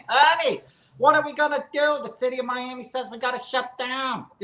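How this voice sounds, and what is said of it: Imitated New Jersey accent. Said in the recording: “She's a Cuban descent, but she grew up in New Jersey. So she's got this accent.”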